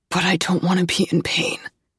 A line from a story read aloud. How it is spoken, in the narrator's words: says Henry hoarsely